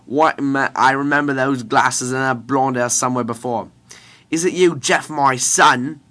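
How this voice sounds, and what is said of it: Bad put-on British accent. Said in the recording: “I'm doing a British accent, it's because I really feel like there should be a bad British accent somewhere in this”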